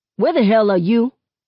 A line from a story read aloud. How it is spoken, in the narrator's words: Seven barks